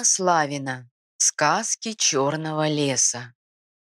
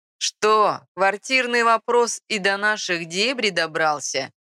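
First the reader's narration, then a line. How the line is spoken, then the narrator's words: Snide question. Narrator (Russian): ехидно спросила физиономия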